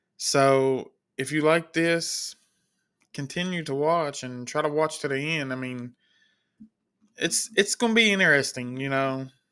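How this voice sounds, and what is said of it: Slight country accent. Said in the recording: “I know I got a little country accent”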